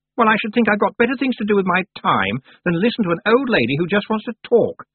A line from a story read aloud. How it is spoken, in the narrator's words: said Anagramma indignantly